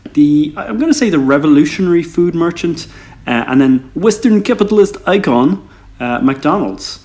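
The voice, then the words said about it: Put-on Australian accent. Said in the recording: “I like the Australian accent... How long did you spend practicing that?”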